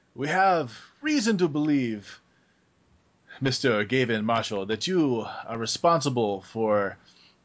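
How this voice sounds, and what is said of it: Heavy put-on French accent. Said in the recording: “he speaks... in a heavily accented French accent”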